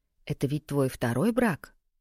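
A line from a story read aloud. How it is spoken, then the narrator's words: Continued in a whisper. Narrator (Russian): Наталья продолжила шепотом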